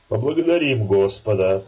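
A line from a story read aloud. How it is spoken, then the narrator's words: Stern. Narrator (Russian): строго сказал Илья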